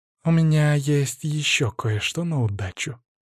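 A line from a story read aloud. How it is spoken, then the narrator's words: Playful purr. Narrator (Russian): игриво промурлыкала Мария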